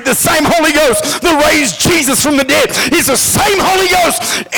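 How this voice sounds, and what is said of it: Yelling excitedly. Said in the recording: “I'm sorry I'm yelling.”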